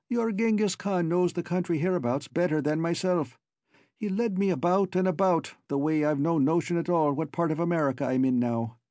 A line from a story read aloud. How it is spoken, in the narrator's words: he broke off with a laugh